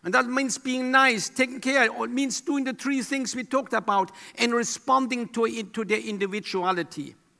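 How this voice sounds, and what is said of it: Speaker's own noticeable accent. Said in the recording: “are you used to my accent by now?”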